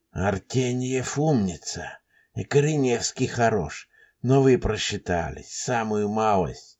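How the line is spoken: Breathless whisper to self. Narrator (Russian): Тяжело дыша, сам себе шептал Елисеев

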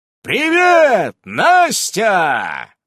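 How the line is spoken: Yelling. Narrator (Russian): заорал

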